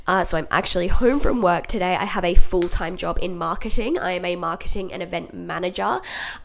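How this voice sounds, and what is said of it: Sick, congested-sounding voice. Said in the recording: “as you can probably tell from my voice, I am sick”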